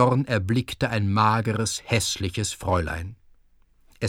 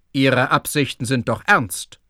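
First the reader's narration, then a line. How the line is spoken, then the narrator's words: Stern question. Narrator (German): fragte Herr Schulze streng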